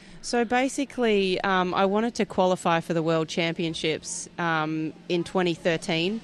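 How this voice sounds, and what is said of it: Australian accent. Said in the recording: “your accent is definitely not from within the United States. I mean, you're a pure and proud Australian.”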